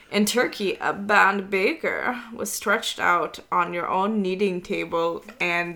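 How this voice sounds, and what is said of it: Failed Turkish accent, sounds German. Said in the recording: “are you trying to do a Turkish accent? ... It's not Turkish was... at all. ... that was like German.”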